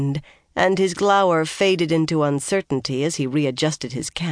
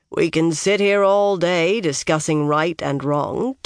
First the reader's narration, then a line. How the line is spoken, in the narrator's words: Tom said dryly